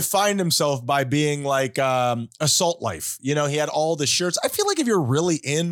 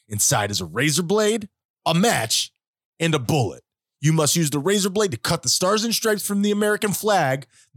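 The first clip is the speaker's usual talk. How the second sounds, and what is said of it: Menacing tough-guy voice. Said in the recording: “I don't know why you're doing the menacing voice. ... Is that your Jocko Wilkins voice?”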